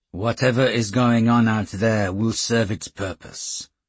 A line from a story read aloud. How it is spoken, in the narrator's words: he said coolly